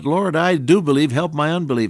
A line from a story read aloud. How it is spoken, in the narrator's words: And the father cried out